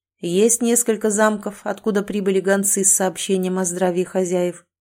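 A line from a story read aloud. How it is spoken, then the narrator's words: Plain. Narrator (Russian): ответил Эрик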